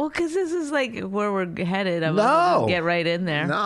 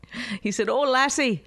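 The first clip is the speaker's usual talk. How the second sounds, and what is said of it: Non-cliched put-on Irish accent. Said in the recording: “I'm doing my Irish accent... a lot of people only know the cliched Irish. I do something a little different... It's not really Irish.”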